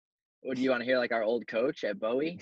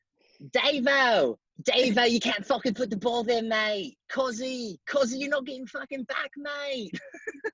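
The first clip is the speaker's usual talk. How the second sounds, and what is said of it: High-pitched Australian accent impression. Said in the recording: “best Aussie accent ... It was like really high pitched. Like he had a very high pitched voice”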